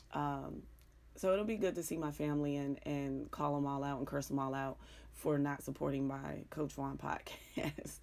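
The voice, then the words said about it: Pittsburgh accent. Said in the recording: “you hear my accent that I struggle with every single day. The Pittsburgh ... the Pittsburgh accent is very interesting ... it's like a cross between down South Carolina and South Central LA, Compton, California ... it's really weird”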